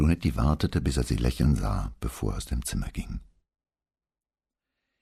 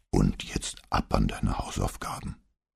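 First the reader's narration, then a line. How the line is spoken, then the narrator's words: Deep bass growl. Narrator (German): knurrte er im tiefsten Bass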